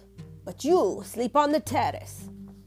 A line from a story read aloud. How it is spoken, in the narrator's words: he grumbled